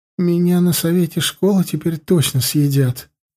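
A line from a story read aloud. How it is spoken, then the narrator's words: Moaning. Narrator (Russian): простонала Юлька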